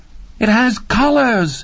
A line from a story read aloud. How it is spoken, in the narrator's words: she cried in a voice of utter, trembling wonder